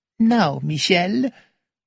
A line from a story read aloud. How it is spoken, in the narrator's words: said Monsieur Poirot gently